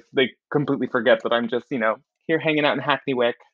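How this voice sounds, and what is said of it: American-sounding accent. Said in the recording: “with my accent, people keep thinking ... they think I'm coming to them from New York ... They think that I'm being beamed in from America”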